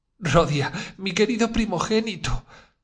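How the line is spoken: Mother sobbing. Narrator (Spanish): dijo la madre sollozando

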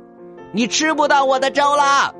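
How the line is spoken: Loud shout. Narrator (Chinese): 小熊大喊一声

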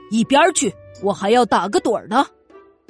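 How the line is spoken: Low angry growl. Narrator (Chinese): 狮子低声怒吼道

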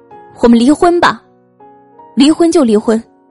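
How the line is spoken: Loud, mid-quarrel. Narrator (Chinese): 终于有一次吵大了，妻子大声说

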